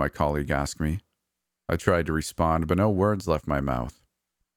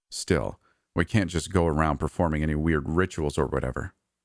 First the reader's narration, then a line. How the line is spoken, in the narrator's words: he warned me in a low voice